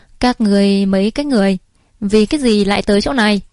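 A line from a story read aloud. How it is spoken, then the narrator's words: Cold. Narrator (Vietnamese): Trang chủ lạnh lùng nói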